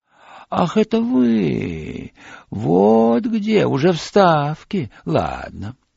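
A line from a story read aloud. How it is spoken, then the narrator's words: Surprised drawl. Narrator (Russian): удивленно протянул слова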